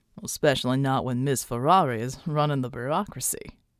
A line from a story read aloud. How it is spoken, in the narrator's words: Yankee Pride chuckled